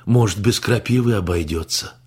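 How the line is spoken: Hopeful sigh. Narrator (Russian): А Венсан вздохнул с надеждой

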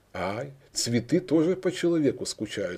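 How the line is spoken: Old woman, laughing. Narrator (Russian): спросила старуха и рассмеялась

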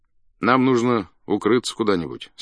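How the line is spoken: Plain. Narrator (Russian): сказал Буркин

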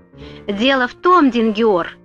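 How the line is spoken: Angry guard's reply. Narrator (Russian): сердито ответил страж ворот

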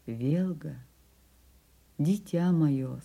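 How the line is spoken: Affectionate. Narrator (Russian): сказал он ласково

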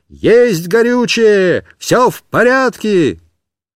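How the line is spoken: Shouting. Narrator (Russian): кричал

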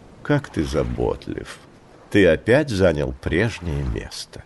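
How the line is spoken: Tender purr. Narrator (Russian): нежно промурлыкала

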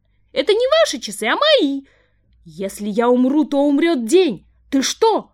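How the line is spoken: Old woman shouting. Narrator (Russian): закричала старушка

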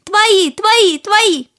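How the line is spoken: Loud fish reply. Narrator (Russian): Рыбки громко ответили

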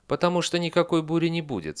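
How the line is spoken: Calm fox. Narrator (Russian): спокойно ответила лиса

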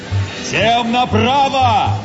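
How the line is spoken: Captain shouting. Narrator (Russian): закричал капитан

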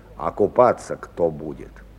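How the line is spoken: Gloomy mutter to himself. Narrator (Russian): Хмуро бормотал как бы про себя

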